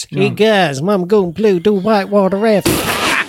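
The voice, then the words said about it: Put-on comic accent. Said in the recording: “That's better than any of the accents ... He's even better than me at doing accents”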